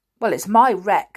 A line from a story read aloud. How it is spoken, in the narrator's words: said George in a defiant tone